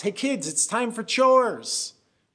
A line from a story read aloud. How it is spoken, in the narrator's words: I yell throughout the house